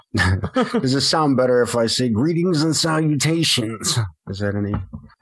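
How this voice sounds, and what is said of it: Imitates another person's voice. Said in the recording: “That's a terrible Christian Slater impersonation ... were you going for like a Christian Slater there?”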